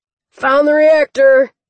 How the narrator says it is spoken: Cleaver shouted from inside

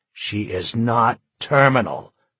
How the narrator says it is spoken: he snarled

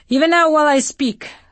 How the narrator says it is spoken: Sumner shouted

